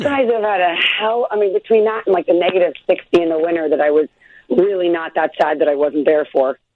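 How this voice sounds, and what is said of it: Slightly hoarse voice. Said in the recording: “I'm a little hoarse today because it's like shockingly like a little Chicago cold in Los Angeles.”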